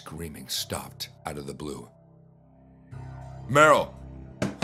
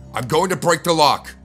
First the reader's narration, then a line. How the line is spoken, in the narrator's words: I shouted